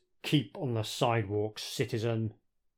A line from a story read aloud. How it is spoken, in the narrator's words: Dredd coldly replies